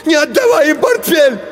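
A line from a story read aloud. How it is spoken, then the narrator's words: Shouting. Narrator (Russian): закричал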